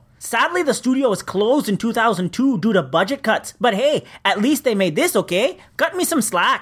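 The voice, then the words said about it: Put-on Canadian accent. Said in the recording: “that's the best Canadian accent you can do?”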